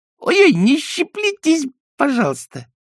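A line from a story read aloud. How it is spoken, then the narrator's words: Mysterious mocking squeaky voice. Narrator (Russian): тот же таинственный голосок пискнул насмешливо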